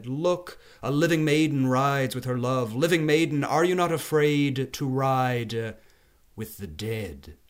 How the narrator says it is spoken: another voice called out from inside the yard, and it said

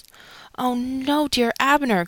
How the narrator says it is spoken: cried

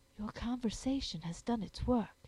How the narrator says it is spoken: she whispered

